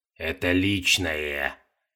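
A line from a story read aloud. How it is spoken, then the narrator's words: Muttered. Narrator (Russian): пробормотал Кхипра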